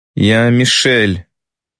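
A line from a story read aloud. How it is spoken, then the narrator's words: Strange lifeless, too loud. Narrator (Russian): каким-то странным, неживым голосом говорит она, слишком громко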